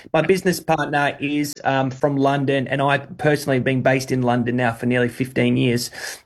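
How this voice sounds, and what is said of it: Australian accent. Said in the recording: “you can hear from my voice that I am Australian”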